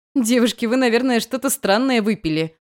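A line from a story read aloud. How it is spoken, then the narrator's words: Laughing. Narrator (Russian): засмеялась я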